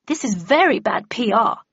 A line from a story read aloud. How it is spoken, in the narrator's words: muttered Cordelia darkly